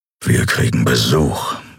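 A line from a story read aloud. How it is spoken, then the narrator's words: Growling. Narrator (German): knurrte er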